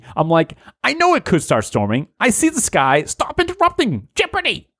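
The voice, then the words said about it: Imitates another person's voice. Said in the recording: “That's my impersonation of Jason Lindholm.”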